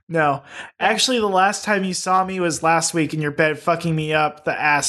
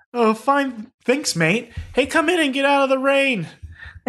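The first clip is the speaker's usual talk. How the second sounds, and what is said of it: Put-on British accent. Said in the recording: “It's definitely English ... Should we be doing British accents here?”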